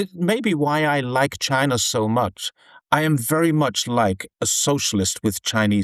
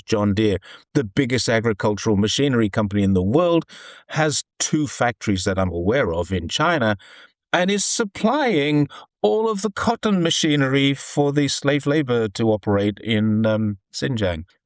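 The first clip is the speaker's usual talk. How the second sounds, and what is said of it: Sarcastic delivery. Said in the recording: “That was sarcasm”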